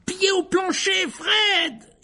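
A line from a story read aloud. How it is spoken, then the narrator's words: Yelled. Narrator (French): hurla Ron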